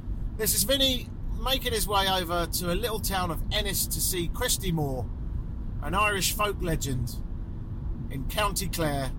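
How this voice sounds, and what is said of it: Exaggerated put-on Irish accent. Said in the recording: “my Irish accent, which, by the way, everyone thinks is grand, other than the Irish, who think it's fucking shite ... they tell me I sound like a comedy leprechaun. I think I overcook it”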